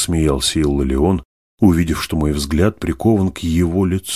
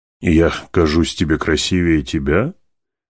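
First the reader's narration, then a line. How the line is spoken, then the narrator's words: Laughing speech. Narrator (Russian): продолжал Иллалион смеяться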